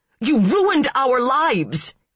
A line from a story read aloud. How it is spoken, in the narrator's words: He screamed